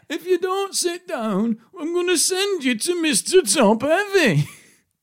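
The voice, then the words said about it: Imitates another person's voice. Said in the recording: “this is her telling someone... That was just your impression.”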